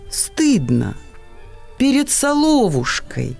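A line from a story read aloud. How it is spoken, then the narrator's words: Quiet reply. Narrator (Russian): тихо ответила Лида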